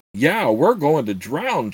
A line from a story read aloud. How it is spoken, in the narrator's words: Chirk cried as he noticed that the water had suddenly started to rise rapidly